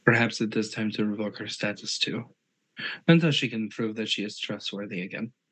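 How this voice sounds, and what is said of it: Character voice with Azra's accent. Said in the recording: “As I slip into Azra's accent again.”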